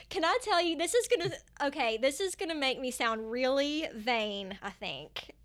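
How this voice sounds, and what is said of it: Speaks with a noticeable accent. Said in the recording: “my accent makes me kind of relatable”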